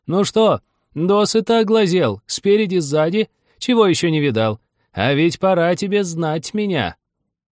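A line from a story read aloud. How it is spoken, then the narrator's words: Impatient shouting. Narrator (Russian): ласочка кричала, потеряв терпение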